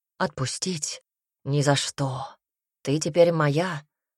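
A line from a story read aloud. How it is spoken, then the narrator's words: Hoarse. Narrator (Russian): голос стал хриплым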